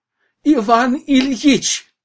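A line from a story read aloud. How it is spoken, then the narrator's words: Clerk's joyful shout. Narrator (Russian): радостно закричал письмоводитель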